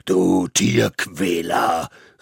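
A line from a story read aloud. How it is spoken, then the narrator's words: Thunderous shout. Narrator (German): rief mit Donnerstimme entgegen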